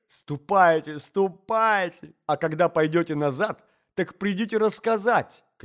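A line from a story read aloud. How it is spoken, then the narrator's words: Lady shouting. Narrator (Russian): кричала дама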